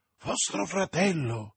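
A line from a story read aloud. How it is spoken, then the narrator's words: Exclaimed. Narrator (Italian): esclamò Madame Bonacieux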